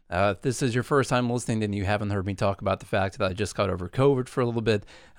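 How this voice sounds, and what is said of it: Slightly rough voice. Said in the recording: “my voice is still a little bit rough right now”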